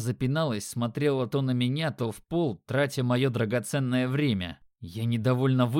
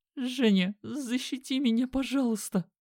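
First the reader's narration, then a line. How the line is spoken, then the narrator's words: Squeaky, near tears. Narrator (Russian): Пропищала она и чуть ли не разрыдалась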